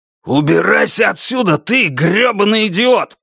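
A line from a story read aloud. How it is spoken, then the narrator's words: Growling. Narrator (Russian): прорычал Фриис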